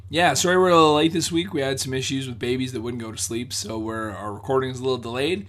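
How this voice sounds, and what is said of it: Hoarse, slightly strained voice. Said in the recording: “slightly laryngitis”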